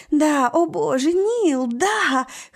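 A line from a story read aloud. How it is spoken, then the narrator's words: Breathless hoarse gasp. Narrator (Russian): хрипит она, задыхаясь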